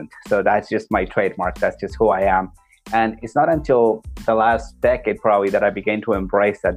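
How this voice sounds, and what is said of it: Peruvian Spanish accent. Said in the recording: “I was born in Peru ... I was never able to get rid of my accent”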